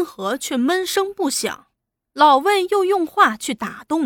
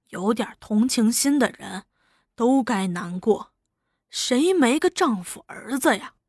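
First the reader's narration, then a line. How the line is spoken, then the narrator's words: Sighing. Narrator (Chinese): 竟叹气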